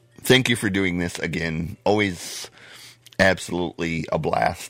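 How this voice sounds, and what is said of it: Strained, failing voice. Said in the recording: “I'm losing my voice. ... before I completely blow my voice out”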